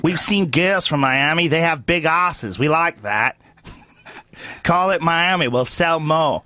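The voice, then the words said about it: Put-on Australian accent, poorly done. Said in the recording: “It's a terrible Australian accent ... No, it's not bad. It's a hard one.”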